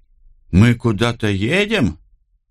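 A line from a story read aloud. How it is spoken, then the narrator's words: Happy, smiling. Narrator (Russian): радостно улыбнулся Карл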